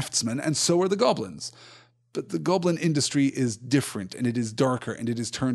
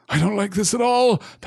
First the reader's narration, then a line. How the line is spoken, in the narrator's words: panted Sam just behind